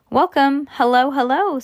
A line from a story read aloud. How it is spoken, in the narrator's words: said Mr